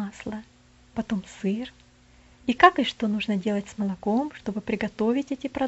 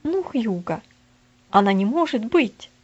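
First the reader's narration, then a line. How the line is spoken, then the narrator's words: Shouted. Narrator (Russian): закричал Джоз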